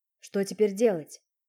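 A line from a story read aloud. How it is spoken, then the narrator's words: Gloomy question. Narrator (Russian): мрачно спросил Дима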